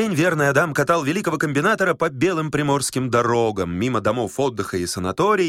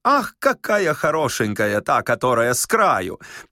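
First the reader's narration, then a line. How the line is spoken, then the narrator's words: Hearty laughter while speaking. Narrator (Russian): При этом они от души хохотали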